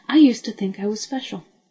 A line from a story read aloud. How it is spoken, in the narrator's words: she said, her voice suddenly brisk